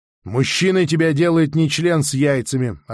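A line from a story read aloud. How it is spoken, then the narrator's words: Reply with a snort. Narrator (Russian): ответил Анна, хмыкнул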